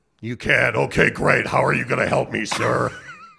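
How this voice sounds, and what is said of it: Put-on fake voice. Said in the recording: “I was using my best fake voice on you”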